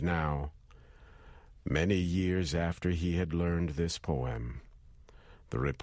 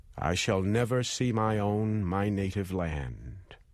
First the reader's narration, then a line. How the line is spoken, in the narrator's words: Just before he died, he cried out